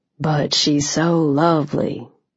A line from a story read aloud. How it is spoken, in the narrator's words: he said quietly